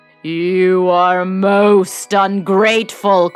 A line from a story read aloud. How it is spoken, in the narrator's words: cried the beast in a terrific voice